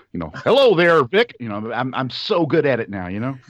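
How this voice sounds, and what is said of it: Put-on American accent. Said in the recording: “my genuine American accent ... It's so authentic ... Nothing fake in here ... based my entire vocal stylings off of that guy in the Tomb of the Cybermen, captain ... Not quite up there with Dick Van Dyke”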